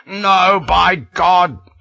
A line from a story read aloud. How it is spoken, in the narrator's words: I roared